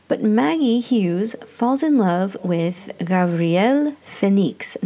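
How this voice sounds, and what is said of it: Attempted Spanish accent on a name. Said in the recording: “I'm sure that sounds like a Spanish accent, but I'm sorry, that's the best accent that I can muster”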